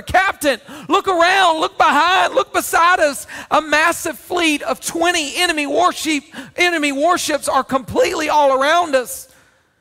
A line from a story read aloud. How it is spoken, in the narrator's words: he screamed in absolute terror